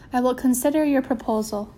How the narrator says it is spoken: said Mama

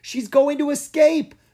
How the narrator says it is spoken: Mina cried

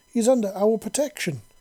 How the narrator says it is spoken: Vippy exclaimed, her voice angry and defensive

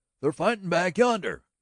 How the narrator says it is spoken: cried the boy wildly with his excitement

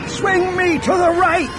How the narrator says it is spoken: He yelled

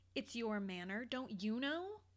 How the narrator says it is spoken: He laughed

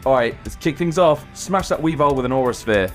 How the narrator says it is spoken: shouts

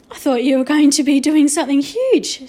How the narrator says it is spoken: she said with a laugh

